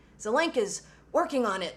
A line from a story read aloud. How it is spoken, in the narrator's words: John gasped